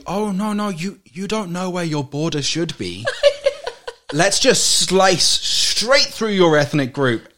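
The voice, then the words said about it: British BBC-style accent. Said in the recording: “I sound like I'm on the BBC... your accent is great for you”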